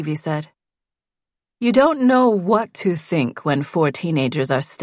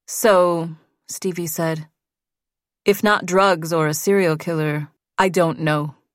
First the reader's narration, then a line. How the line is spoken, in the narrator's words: Susan said again, and her tone was final